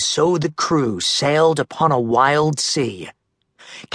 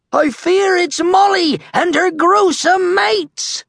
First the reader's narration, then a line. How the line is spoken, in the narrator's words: the lookout cried